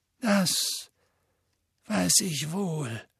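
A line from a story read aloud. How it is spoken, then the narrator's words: Heavy voice. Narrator (German): sagte Dumbledore mit schwerer Stimme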